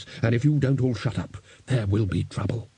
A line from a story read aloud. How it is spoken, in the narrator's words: said Ridcully in a low and level voice